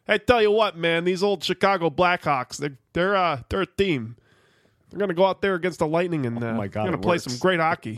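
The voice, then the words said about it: Jon Gruden impression, Chicago accent. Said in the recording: “how to do Chicago accent. Just do John Gruden ... Sounds like he came right off of the set of SNL ... He has like such a like Chicago-y kind of like Midwestern-y vibe.”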